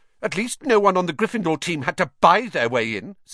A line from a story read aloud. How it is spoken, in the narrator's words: said Hermione sharply